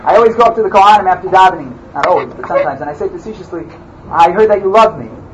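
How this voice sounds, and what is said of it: Loud American accent. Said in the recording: “You're a weird, loud American? I'm loud. I can't argue with that. I'm definitely American. You can hear my accent.”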